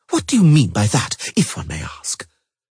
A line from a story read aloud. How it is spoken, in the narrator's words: Triss Merigold gasped loudly